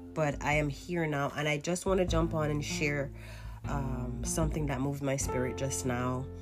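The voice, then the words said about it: Voice sounds unwell. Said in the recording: “Forgive my voice. I am recovering from the flu”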